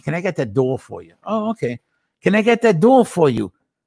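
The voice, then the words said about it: Put-on New York accent. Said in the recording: “can you give me a New York accent”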